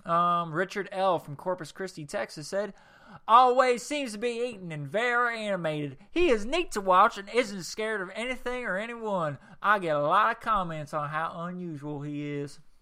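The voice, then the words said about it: Put-on Texas accent. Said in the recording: “that was my Texas accent... I want to do my Texas accent a little bit more”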